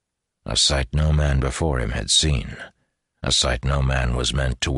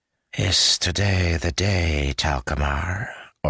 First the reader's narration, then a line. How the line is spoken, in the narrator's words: Ordan asked, the hissing lisp of his voice barely noticeable now